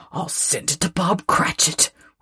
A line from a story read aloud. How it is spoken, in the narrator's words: whispered Scrooge, splitting with a laugh